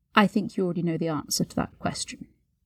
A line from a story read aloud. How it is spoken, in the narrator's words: murmured